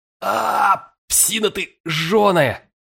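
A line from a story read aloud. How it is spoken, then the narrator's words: Groaning cry. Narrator (Russian): Застонав, я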